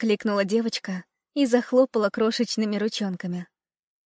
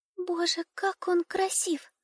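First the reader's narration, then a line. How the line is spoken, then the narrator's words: Whisper. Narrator (Russian): шепнула Дюймовочка ласточке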